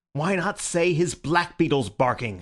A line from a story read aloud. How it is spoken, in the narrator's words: said Syme furiously